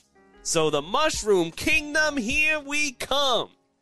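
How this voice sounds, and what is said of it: Brooklyn accent cartoon character voice. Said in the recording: “a Brooklyn-style accent for Mario ... That's a Brooklyn accent.”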